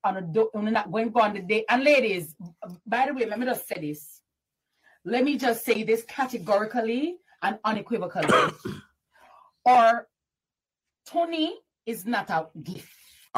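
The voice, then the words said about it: Thick Caribbean accent. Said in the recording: “She has a very thick, I believe, a Caribbean accent.”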